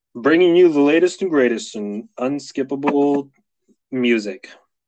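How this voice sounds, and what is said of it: Announcer-style radio voice. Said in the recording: “Was that a good radio voice? ... That was pretty good. ... Maybe a little bit deeper.”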